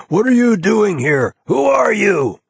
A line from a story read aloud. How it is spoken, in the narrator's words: the man in possession, the owner who got there first, will rush in and scream